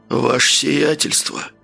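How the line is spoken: Surprised, hoarse question. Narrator (Russian): удивленно спросил хриплым голосом

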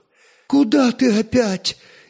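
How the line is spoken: Frightened exclamation. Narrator (Russian): испуганно воскликнула жена

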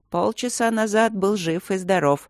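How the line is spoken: Grumbling. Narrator (Russian): проворчал Леймин

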